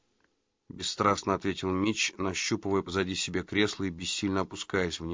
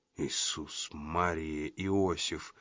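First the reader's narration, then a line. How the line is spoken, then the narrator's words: Whisper. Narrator (Russian): прошептал Джина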